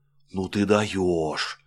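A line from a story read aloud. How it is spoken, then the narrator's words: Excited whisper. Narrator (Russian): восторженно зашептала Ленка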